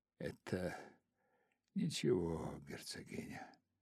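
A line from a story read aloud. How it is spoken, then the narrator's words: Whisper. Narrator (Russian): прошептал он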